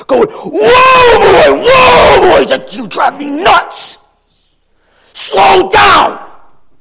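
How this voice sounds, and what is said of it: Screaming imitation of father. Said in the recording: “I'm screaming, and my face is red because I want to show you what I remember my dad doing”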